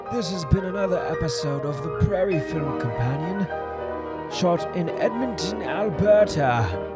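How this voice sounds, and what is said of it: Bad put-on British accent. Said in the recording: “this atrocious British, slightly mixed accent”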